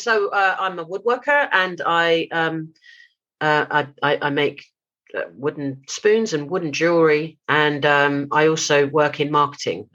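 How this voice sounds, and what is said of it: British accent. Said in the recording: “I live in the UK, obviously, if the accent wasn't a giveaway.”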